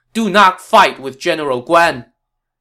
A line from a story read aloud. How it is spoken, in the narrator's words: a rider flew onto the scene, shouting